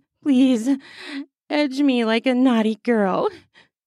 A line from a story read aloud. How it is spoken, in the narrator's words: Secret moaned